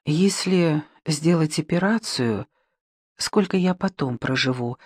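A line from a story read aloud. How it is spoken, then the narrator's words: Timid question. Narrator (Russian): робко спросила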